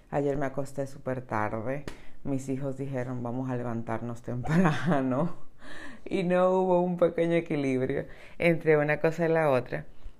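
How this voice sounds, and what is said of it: Deep, groggy just-woken-up voice. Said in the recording (Spanish): “recién despierta, así con mi voz de ultratumba”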